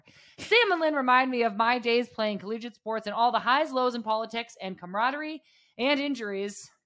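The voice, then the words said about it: Put-on news reporter voice. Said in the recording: “Why ... are you reading this in an accent? ... This is my news reporter.”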